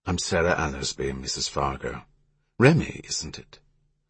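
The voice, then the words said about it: Upper-class British accent. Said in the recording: “Her British accent was distinctly upper class.”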